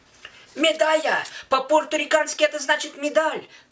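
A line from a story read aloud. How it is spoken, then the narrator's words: Shouting between gulps. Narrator (Russian): кричал я в лицо каждому встречному в коротких перерывах между гигантскими глотками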